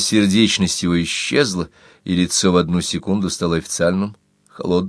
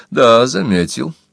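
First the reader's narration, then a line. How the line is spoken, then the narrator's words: Dry indifferent tone. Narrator (Russian): сухо сказал Листер, равнодушно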